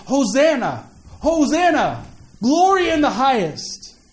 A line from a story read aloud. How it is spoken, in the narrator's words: People would have been standing there in throngs waiting, fanned the air with the shouts of